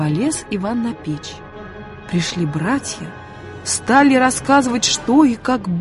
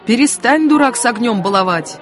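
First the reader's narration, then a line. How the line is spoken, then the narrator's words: Shouted at him. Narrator (Russian): крикнули на него братья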